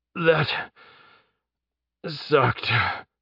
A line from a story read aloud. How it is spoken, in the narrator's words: Jeb groaned